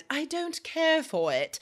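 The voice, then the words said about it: Poor put-on British accent. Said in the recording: “like a little bit like you need a British accent... That was a terrible accent”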